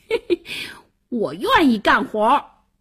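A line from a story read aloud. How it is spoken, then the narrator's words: Loud laughter. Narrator (Chinese): 王小二大笑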